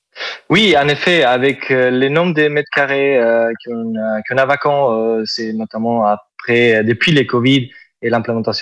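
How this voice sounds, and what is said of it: Southern French accent. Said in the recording (French): “Vous avez un superbe accent ... C'est l'accent du sud. ... c'est joli”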